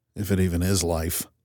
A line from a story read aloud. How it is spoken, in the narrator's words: I mumbled